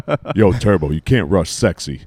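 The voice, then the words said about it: Imitates another person's voice. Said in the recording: “That's a good impression,... It sounded just like him.”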